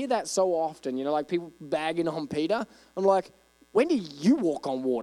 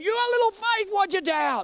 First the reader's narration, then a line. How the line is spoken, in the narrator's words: he wasn't screaming at him